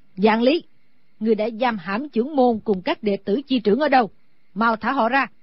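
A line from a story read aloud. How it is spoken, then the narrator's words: Loud angry shout. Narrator (Vietnamese): Sử Bà Bà lớn tiếng hét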